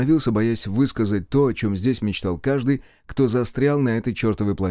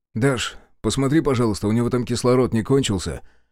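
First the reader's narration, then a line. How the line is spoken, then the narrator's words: Snorting. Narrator (Russian): хмыкнул Мишка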